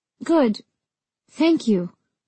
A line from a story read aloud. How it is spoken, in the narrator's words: said my voice wavering